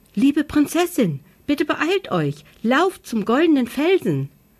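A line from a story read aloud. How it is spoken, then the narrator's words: Loud squeaky voice. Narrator (German): piepste Lo, so laut sie nur konnte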